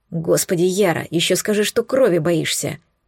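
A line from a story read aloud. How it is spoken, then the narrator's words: Whispered cursing. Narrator (Russian): шепотом ругаясь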